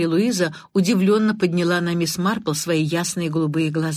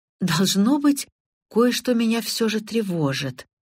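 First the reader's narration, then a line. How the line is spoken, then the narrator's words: Uncertain. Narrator (Russian): неуверенно произнесла миссис Сэроколд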